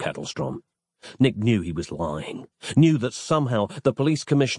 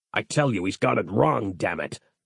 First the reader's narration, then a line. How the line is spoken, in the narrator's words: snapped Kettlestrom